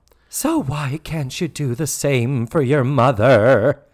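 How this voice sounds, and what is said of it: Impression of Charlotte Rae. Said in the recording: “your Charlotte Ray impersonation”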